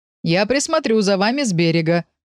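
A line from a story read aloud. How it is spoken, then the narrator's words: Shout. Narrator (Russian): крикнул папа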